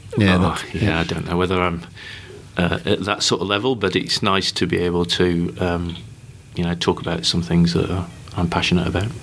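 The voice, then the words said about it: Northern English accent. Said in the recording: “your northern accent.”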